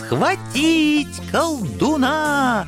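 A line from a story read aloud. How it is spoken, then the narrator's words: Shrill high-pitched squeal. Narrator (Russian): Неожиданно тонким голосом заверещал кто-то из монахов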